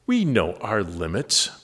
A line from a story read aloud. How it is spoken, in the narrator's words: Bubble Boy snapped in reply